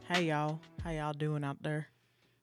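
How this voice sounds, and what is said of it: Put-on Southern US accent. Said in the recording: “I think I'm gonna see if I can do the whole episode with this uh, southern accent”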